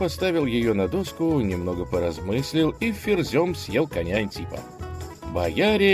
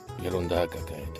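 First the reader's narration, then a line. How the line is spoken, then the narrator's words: Muttering. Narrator (Russian): пробормотал князь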